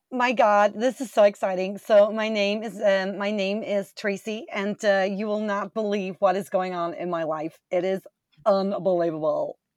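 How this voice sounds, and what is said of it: Slight American accent. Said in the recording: “I get a little bit of a U.S. accent there”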